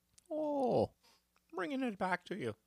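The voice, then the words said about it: Put-on Irish or Minnesota accent. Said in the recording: “That's my Irish slash Minnesota accent. It might be the same accent.”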